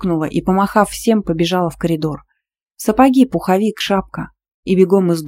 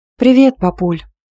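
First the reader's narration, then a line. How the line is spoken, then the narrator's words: Cheerful chirp. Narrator (Russian): радостно прощебетала я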